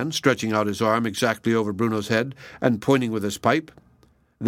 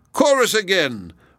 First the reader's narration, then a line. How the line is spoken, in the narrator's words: was shouted out by one of the red-faced men